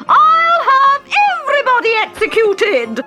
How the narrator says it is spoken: screeched the Queen

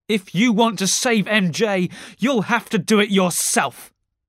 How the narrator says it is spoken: Harry shouted

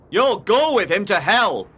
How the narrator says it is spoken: cried Heathcliff

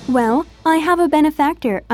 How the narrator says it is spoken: stuttered

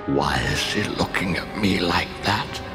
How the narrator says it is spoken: He whispered to Loki

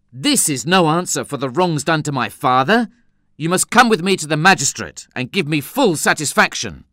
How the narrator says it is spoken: I exclaimed angrily

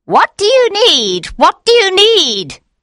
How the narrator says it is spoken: she cried

